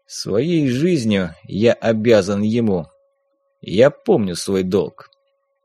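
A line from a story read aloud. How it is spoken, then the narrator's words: Quiet. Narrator (Russian): этот мужчина в дорогом костюме, один из председателей общества ветеранов Афганистана, тихо сказал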